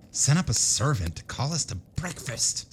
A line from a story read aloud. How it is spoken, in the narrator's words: snarled Abner